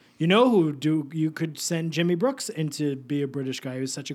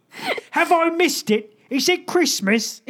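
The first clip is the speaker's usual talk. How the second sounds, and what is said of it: Put-on British accent. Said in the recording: “a great British accent ... with his accent. ... That was what Jimmy sounded like”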